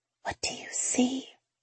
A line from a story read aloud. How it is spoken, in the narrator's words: whisper